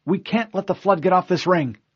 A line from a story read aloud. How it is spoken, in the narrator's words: Cortana said desperately